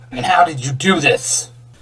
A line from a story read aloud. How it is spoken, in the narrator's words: Nightwing barked